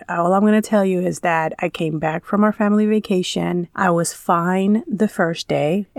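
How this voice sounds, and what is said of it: Funny-sounding sick voice. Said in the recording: “if my voice sounds funny, it's because I have been sick for like, 7 days, probably more”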